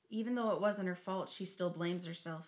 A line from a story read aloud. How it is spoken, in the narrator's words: he'd said